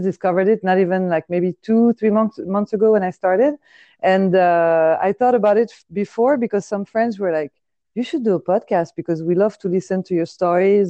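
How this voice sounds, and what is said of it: Deep voice with French accent. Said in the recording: “you have that that deep French accent, and then your voice has that deep French ... it's not like a high pitched French. It's a very mm-hmm. beautiful, deep voice.”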